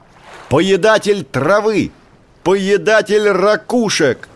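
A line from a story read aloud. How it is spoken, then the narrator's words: Shouting even louder. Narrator (Russian): закричал еще громче прежнего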